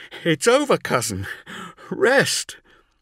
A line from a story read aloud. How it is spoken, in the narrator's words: Zahariel cried